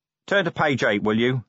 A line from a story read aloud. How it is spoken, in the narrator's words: said Vimes grimly